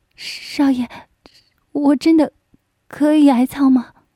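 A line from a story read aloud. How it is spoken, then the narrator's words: Trembling, ecstatic question. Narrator (Chinese): 一阵狂喜，声音颤抖着问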